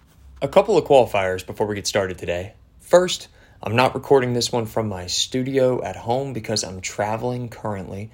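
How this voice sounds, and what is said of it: Slightly hoarse voice. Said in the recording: “my voice sounds a little hoarse ... I went to a Georgian football match last night”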